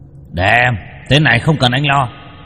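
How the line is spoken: Dragon's growl. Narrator (Vietnamese): Du hóa thành giao long mà gầm gừ

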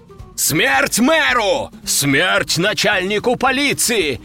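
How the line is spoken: Enraged crowd yelling. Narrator (Russian): орали взбешенные люди

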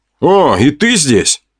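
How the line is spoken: Snorting. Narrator (Russian): хмыкнул я

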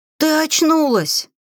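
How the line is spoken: Joyful chorus of exclamation. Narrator (Russian): Обрадованно воскликнули сразу все 14 ведьмочек

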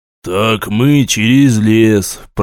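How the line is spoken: Muttering. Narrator (Russian): пробурчал офицер

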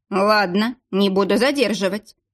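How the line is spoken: Plain. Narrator (Russian): сказал сержант

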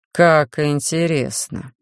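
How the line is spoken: Menacing drawl. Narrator (Russian): с угрозой протянул следователь

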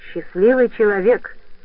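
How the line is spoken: Snort. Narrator (Russian): фыркнул Сикси

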